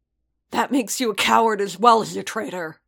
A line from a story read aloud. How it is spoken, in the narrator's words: Paz spat